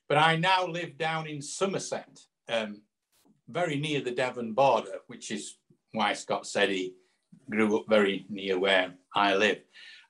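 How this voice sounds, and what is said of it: Yorkshire English accent. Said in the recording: “I'm from Yorkshire originally, as you probably tell. Well, Scott will tell from my accent.”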